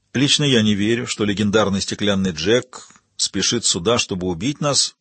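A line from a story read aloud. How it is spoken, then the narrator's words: Even voice. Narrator (Russian): сказал Яго ровным голосом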